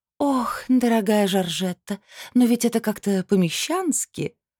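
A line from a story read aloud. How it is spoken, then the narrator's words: Sweet breathy sigh. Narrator (Russian): сладко выдохнула мадам Нирсон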